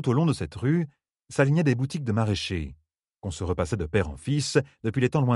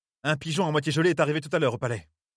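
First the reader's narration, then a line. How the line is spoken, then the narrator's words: Furious tone. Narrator (French): dit-elle d'un ton furibard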